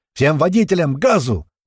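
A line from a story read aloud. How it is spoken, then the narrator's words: Shouted into radio. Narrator (Russian): кричал уже в рацию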